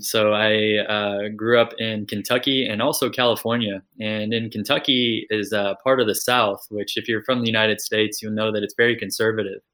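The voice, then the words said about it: American accent. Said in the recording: “I grew up in the United States, if you can't tell from the accent.”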